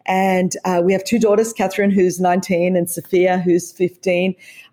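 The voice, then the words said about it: Australian accent. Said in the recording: “As you could tell from the accent, I was raised in Australia. This is how the Queen wishes that she could speak English.”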